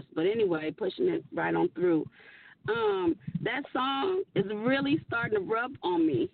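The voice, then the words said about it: Hoarse voice. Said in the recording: “forgive me for my voice. I'm hoarse... I'm a little hoarse.”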